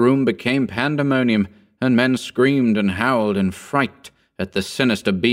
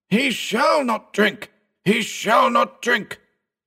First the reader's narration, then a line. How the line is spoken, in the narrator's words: roared old Bugs